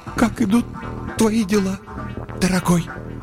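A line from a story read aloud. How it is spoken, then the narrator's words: Forced out, unhappy. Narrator (Russian): выдавила из себя несчастная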